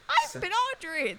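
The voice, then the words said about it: Squeaky British-accented mouse voice. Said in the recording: “my Audrey impression. It's British Mouse.”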